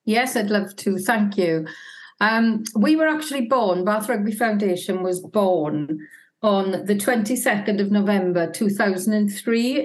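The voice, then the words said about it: Slight Welsh accent. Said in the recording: “picking up a bit of an accent there ... Wales have never won it”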